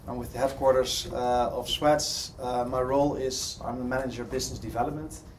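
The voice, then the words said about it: Dutch accent. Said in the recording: “As you probably can hear from my accent, I'm not from the UK, I'm from Holland.”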